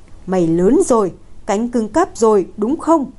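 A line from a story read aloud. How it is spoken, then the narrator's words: Angry laugh, father. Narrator (Vietnamese): Cha Lục tức giận bật cười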